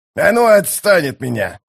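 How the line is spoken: Growl. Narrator (Russian): зарычал он

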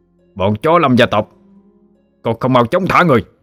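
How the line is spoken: Immediate shout. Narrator (Vietnamese): Người bên cạnh lập tức quát lên

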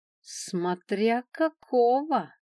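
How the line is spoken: Sarcastic drawl, dragon. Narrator (Russian): с легкой ехицей в голосе протянул дракон

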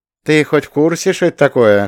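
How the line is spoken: Short laugh. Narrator (Russian): хохотнул Леха

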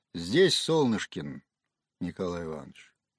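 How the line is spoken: Deep bass voice. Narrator (Russian): Один из капитанов произнес басом первого призрака

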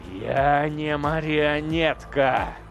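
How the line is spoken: Growling soul. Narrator (Russian): зарычала его душа

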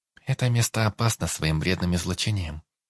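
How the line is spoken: Calm reply. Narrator (Russian): спокойно ответила девушка

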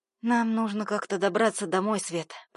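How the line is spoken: Weary hoarse rasp. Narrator (Russian): прохрипела я, не желая открывать глаза

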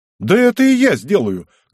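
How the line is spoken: Shouted. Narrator (Russian): крикнул Збышка

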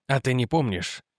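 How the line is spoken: Quiet question. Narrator (Russian): тихо спросил Реджи

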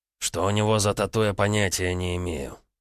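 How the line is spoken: Through gritted teeth. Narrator (Russian): сквозь зубы ответил Солома

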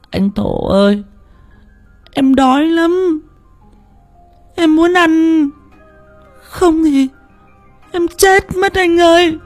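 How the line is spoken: Whimpering, about to cry. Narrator (Vietnamese): Con Tân mếu máo

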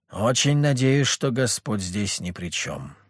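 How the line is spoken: Grim reply. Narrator (Russian): мрачно ответил

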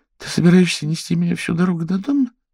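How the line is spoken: Timid, disbelieving question. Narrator (Russian): в неверии спросила она, причем спросила довольно робко

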